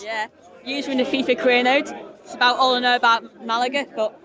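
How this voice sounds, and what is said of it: Manchester accent. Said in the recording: “that's a lovely Manchester accent.”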